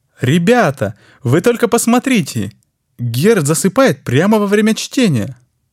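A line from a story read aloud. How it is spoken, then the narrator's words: Exclamation. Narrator (Russian): воскликнул сидящий рядом Франц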